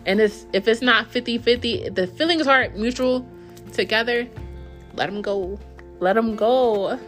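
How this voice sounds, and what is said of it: Yelling. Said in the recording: “I'm yelling.”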